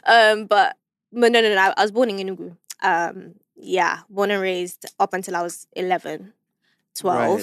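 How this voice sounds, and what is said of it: British-sounding accent. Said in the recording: “Why did I think you were born 040. In the UK? ... I think it's because of my accent, right?”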